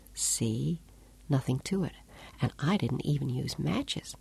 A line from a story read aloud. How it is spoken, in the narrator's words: she whispered